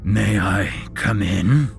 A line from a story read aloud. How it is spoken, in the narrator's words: boomed a bone-rattling voice